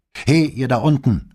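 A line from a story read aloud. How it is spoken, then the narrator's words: Man calling from above. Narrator (German): rief ein Mann von der Tür oben an der Treppe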